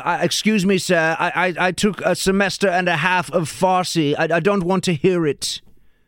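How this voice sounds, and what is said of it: Fake British accent. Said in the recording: “I've got a fake British accent”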